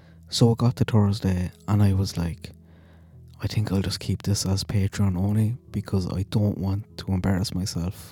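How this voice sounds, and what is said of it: Accent dropping H and TH sounds. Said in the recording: “my accent ... trying to pronounce my H's or my TH's ... people can't tell the difference between tree and tree”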